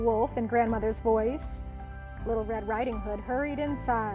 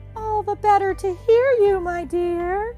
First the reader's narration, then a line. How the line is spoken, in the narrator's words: said the wolf in a cheerful voice